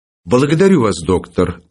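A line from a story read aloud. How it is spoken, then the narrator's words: Affectionate, gentle. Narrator (Russian): ласково сказал Филипп Филиппович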